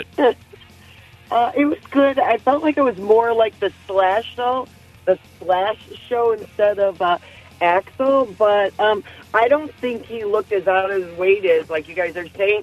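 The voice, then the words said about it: Slightly hoarse voice. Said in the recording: “I'm a little hoarse today.”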